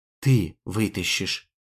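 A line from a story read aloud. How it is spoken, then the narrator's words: Quiet. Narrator (Russian): тихо сказала она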